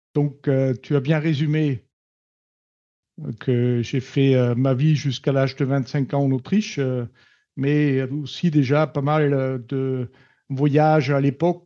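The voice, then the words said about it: Austrian accent speaking French. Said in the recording (French): “je suis autrichien. Ceci explique mon petit accent ... L'accent toulousain, euh, il, essaie de passer par-dessus, mais n'est pas encore fait”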